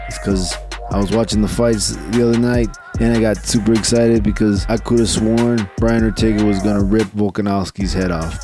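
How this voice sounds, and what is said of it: Slightly hoarse voice. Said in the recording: “apologize for my voice. It's a little hoarse.”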